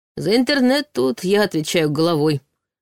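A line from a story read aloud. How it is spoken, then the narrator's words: Snorting. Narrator (Russian): хмыкнул тот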